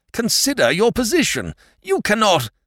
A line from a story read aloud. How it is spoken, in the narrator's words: almost howled